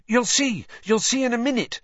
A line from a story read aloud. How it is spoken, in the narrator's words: said Hermione excitedly